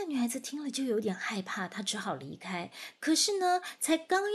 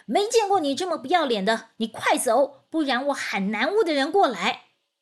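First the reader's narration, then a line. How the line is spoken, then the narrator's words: Loud scolding. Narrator (Chinese): 宁采臣大声的呵斥她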